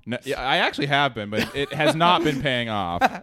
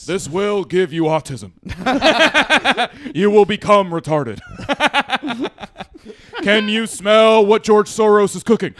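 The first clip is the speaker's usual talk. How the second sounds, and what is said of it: Imitates another person's voice. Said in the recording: “my rock impression”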